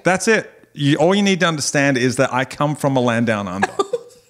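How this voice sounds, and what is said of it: Australian accent. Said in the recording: “I'm Australian and this is how I talk ... my accent”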